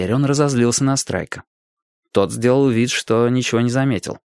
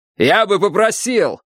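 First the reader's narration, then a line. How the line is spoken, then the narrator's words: Barking sharply. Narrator (Russian): рявкнул Фэнкорт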